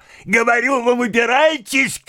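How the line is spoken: Shouting. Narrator (Russian): кричала

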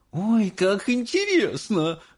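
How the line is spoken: Female exclamation. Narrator (Russian): воскликнула миссис Барегард

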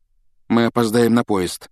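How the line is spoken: Dejected voice. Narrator (Russian): упавшим голосом проговорил он

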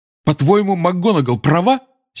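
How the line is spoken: Angry address. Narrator (Russian): сердито обратился Гарри к портрету Корнелиуса Фаджа

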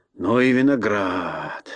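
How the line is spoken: Sailor's mutter. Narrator (Russian): бормотал моряк

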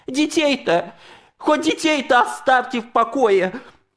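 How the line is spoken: Old man's voice breaking with rage. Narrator (Russian): Старик прокричал срывающимся от гнева голосом

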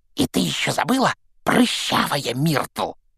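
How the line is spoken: Hissed into ear. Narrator (Russian): прошипел ей в ухо Пивз

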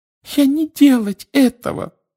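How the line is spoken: Frightened squeak. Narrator (Russian): пропищала она, вращая от страха глазами

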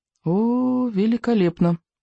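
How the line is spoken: Mutter. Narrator (Russian): пробормотал Икинг

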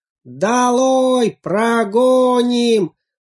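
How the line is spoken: Many voices yelling. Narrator (Russian): завопили все цветы

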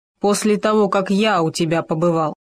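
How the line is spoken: Muttered. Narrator (Russian): пробурчал Хома

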